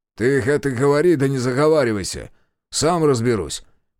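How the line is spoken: Grumbling. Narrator (Russian): проворчал Демьян

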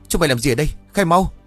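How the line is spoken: Panicked angry shout. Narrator (Vietnamese): Huân hoảng hốt gắt lên, trừng mắt quát

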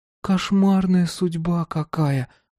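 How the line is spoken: Sigh. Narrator (Russian): вздохнула Женя

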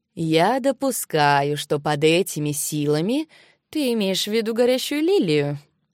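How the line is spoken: Plain. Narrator (Russian): спросил Йишен

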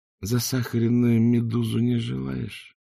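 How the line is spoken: Drawling. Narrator (Russian): протянул Ринсвинд

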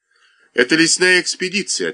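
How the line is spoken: Plain. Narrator (Russian): ответил Дункай

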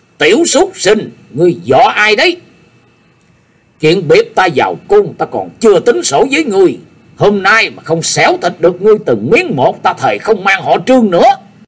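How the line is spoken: Harsh angry shout. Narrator (Vietnamese): Hắn trợn mắt nhướng mày, đanh giọng quát lên

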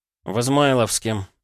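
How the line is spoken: Sighing. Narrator (Russian): вздохнул Полозов

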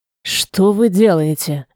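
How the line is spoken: Whisper into ear. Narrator (Russian): Базель шепнуть в самое ухо

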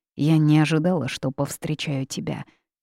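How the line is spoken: Sigh. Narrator (Russian): вздохнула Янь Хуэй

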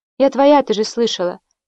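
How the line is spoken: Flat toneless voice. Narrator (Russian): бесцветным голосом ответила Лакуста

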